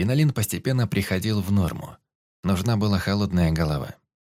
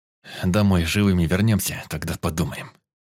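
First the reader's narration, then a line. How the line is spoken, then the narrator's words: Through gritted teeth. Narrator (Russian): процедил Тимур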